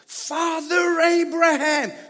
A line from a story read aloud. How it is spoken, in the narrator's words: The rich man shouted